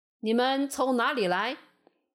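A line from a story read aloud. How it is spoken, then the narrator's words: Stern feigned questioning. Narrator (Chinese): 约瑟……故意装作不认识，厉声问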